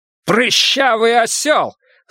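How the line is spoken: Yelled through mask. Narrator (Russian): заорал Брус из-под маски

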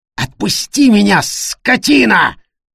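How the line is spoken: Roaring. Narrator (Russian): взревел Тима

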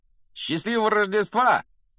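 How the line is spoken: Shouted from doorway. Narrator (Russian): прокричал с порога Фред

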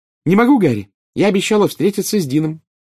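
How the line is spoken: Cheerful. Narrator (Russian): весело ответила Джинни

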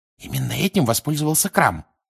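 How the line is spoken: Whisper. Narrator (Russian): прошептала Гермиона

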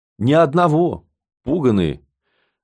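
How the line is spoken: Sighing. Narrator (Russian): Алешка вздохнул

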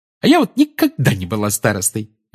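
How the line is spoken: Cheerful. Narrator (Russian): весело сказала Тонкс у Гарри за спиной

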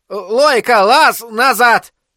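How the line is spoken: Older shepherd shouting. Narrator (Russian): крикнул немолодой пастух

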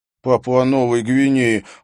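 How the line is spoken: Snorted. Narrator (Russian): фыркнул Эндрю

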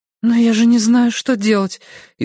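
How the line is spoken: Frightened squeak. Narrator (Russian): испуганно пискнула она

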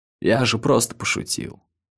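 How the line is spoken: Muttering. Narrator (Russian): пробормотал Лакман

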